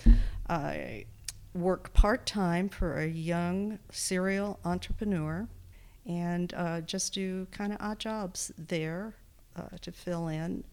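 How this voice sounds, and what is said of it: Texas accent. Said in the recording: “I grew up in Texas, mostly... that's where my accent comes in”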